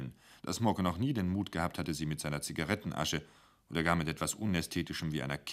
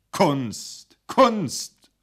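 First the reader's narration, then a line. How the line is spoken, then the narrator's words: Repeated call. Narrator (German): rief er noch einmal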